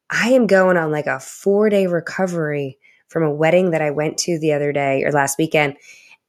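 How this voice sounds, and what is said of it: Slightly scratchy voice. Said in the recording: “My voice is a little scratchy today.”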